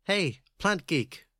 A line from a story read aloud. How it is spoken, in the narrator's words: Bones had to raise her voice to be heard